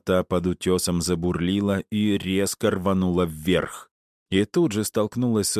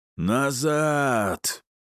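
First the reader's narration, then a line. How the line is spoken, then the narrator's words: Roar. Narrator (Russian): проревел Аид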